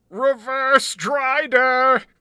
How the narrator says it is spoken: screech

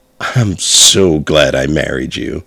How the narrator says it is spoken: I said between chuckles

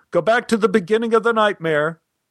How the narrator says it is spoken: He yelled up to the control booth

